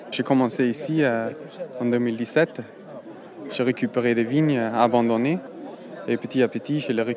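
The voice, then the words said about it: Foreign accent speaking French. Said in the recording (French): “il est italien du Nord Tyrol, donc italien qui parle allemand ... J'ai un accent quand je parle euh, français.”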